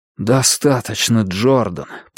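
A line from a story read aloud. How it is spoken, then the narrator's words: Muttered. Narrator (Russian): пробормотал Клай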